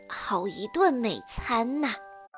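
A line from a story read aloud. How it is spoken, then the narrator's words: Muttering. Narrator (Chinese): 他忍不住嘀咕道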